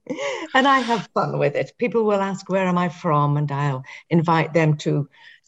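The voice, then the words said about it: English accent. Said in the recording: “they guess either England or Australia ... from the accent, you can tell England initially”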